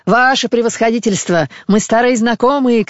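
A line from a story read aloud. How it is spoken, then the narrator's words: Shouting. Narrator (Russian): кричал третий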